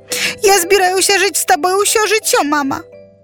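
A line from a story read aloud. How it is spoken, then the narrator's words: Sobbing. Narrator (Belarusian): усхліпвала яна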